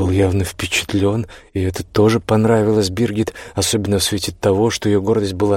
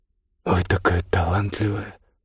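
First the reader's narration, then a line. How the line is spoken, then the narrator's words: Muttered. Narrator (Russian): пробормотал он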